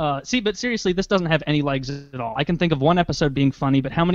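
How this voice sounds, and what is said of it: Usual voice. Nothing is said of it.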